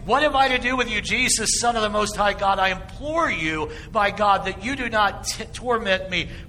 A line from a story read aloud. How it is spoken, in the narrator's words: he cried with a loud voice